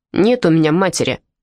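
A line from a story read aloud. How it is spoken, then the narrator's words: Snapping, cursing ragamuffin. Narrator (Russian): огрызнулся оборванец, добавив несколько крепких словечек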